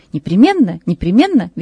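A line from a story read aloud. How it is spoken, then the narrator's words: Cheerful reply. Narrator (Russian): весело отвечал поручик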